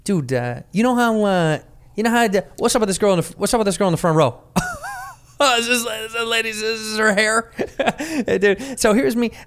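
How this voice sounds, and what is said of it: Imitates another person's voice. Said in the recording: “Here's your all joke... Man, that's not me.”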